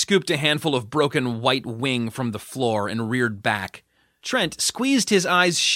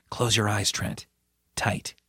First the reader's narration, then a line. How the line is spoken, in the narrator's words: heard Judith whisper